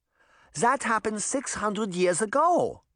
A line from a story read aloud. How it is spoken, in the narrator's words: Granny exclaimed